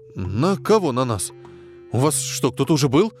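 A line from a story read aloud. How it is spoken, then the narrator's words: Frightened question. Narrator (Russian): Испуганно спросил тип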